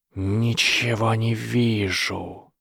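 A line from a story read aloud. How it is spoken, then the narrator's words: Hissing. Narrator (Russian): прошипел Гарри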